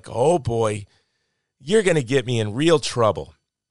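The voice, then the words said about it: Imitated Wisconsin accent. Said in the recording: “she says with her Wisconsin accent”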